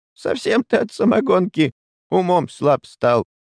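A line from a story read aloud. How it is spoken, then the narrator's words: Mocking old man's guffaw. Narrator (Russian): издевательски захохотал дед Степан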